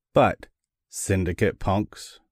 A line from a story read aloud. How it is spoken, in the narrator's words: Morocco said slowly, thoughtfully